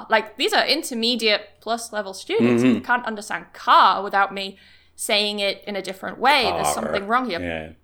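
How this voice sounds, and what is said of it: Scottish accent. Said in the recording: “It's quite Scottish.”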